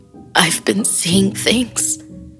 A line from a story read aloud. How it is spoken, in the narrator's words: she sobbed